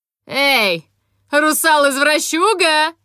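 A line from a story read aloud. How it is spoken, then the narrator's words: Defiant shout. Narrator (Russian): крикнула я с вызовом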